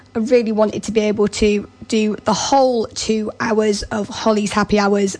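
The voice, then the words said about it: Rough, unwell-sounding voice. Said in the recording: “as you can probably tell by my voice, feeling very rough”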